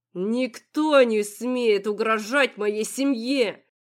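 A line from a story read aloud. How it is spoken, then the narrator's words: Window-rattling growl. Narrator (Russian): От рычания, слетевшего с губ Вирила, задрожали стекла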